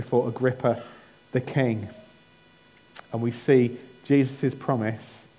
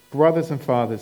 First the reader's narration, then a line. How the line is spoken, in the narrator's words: he says